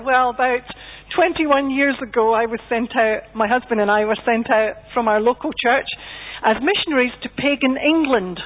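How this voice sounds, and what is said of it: Scottish accent. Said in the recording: “you can tell from my accent that I'm Scottish”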